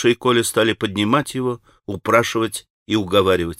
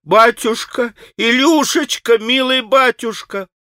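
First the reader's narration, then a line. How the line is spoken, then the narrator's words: Sobbing anguished wailing cries. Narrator (Russian): как в бессилии, как сраженный, пал на снег и, биясь, вопия и рыдая, начал выкрикивать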